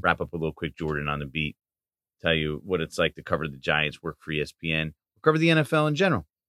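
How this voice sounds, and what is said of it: Slightly raspy, sore voice. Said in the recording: “my voice is getting a little raspy, a little sore from too much yelling”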